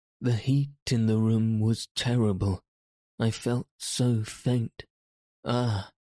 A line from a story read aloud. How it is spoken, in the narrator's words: She uttered a groan, murmured faintly